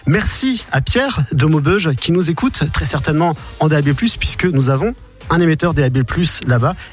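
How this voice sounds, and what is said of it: Northern French ch'ti accent. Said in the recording (French): “je suis un vrai ch'ti ... mon accent est en train de revenir ... chez nous on a tendance à raccourcir un peu les mots”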